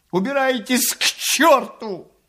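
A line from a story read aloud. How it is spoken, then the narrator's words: Tearful shout. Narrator (Russian): крикнул он плачущим голосом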